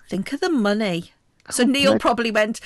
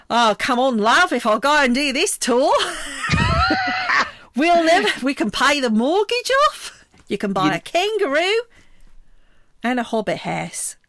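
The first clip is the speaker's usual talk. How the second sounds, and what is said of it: Put-on New Zealand accent. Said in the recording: “your New Zealand accent is better than your Scottish one”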